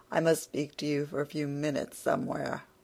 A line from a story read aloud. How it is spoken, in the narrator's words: said to her, tolerably soon, in a low voice